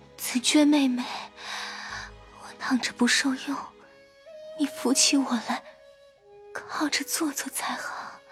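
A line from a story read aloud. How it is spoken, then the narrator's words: Breathless, panting, hesitant. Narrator (Chinese): 迟了半日，黛玉又一面喘一面说道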